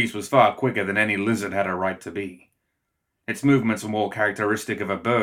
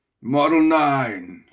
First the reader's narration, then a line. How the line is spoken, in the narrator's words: he roared